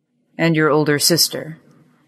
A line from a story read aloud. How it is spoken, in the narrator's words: His voice was sharper now than he intended it